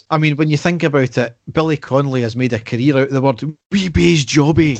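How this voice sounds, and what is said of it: Scottish comedian impression. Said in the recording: “That was my Billy Connolly impression there, by the way ... I thought it was some sort of mad Chinese guy that you're doing an impersonation of there”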